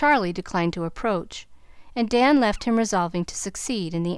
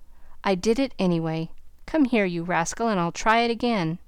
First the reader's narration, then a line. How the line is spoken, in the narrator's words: saying with a laugh